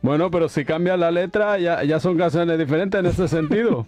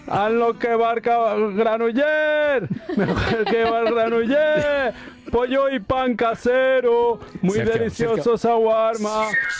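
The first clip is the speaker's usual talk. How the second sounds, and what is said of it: Loud sing-song chanted tune. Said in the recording (Spanish): “siempre cantas la misma canción con la misma tono, con la misma tonada, la decibeles”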